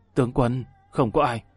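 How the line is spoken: Quiet voice. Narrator (Vietnamese): Đỗ Tu Nguyên nhỏ giọng nói

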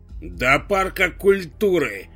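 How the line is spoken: Conductor barking. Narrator (Russian): рявкнула кондукторша

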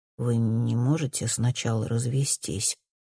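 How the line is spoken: Quiet question. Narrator (Russian): спрашивает Альбин тихо

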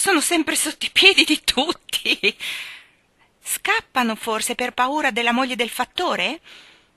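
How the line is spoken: Surprised, very excited shout. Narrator (Italian): gridò Michael sorpreso ed eccitatissimo

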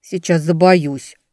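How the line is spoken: Grumbling mutter. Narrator (Russian): буркнула Велька

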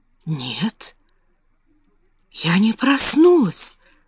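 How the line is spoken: Whisper. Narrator (Russian): прошептала она

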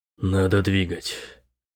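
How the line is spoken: Gloomy. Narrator (Russian): мрачно сказал он

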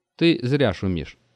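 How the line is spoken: Plain. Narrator (Russian): сказал он

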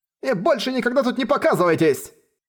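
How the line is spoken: Shout. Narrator (Russian): крикнул

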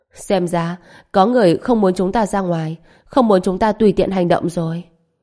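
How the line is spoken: Laughing. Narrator (Vietnamese): Trần Bình bật cười hai tiếng, nói

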